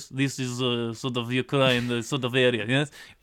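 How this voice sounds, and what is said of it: Bad put-on Eastern European accent. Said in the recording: “I'm doing a bad Eastern European accent”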